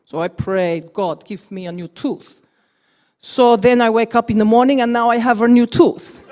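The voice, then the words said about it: Put-on Russian accent. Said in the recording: “I put on a Russian accent. Sorry, Chekhov's”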